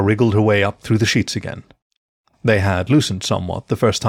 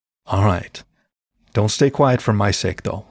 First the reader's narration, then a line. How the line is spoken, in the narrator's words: he said